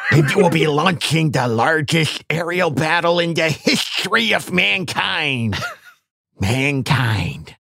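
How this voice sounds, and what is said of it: Nerdy put-on voice. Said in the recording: “nerd voice”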